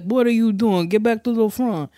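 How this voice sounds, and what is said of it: Mumbled Italian New York hybrid accent. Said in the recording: “that's not me doing an accent. I don't know what his accent was. I just know that he didn't open his mouth. ... that sounded like some kind of like Italian New York hybrid with something else mixed in.”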